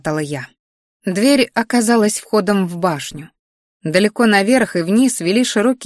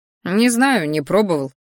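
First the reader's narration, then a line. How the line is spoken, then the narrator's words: Wry snort. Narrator (Russian): хмыкнул Рат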